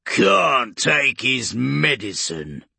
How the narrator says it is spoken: Urgork grunted

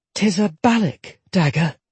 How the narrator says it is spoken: Jetta said softly

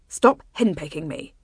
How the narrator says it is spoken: he snapped back

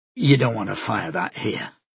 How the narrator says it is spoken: Mikel said quietly

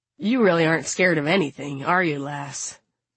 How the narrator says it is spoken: Ramona sighs

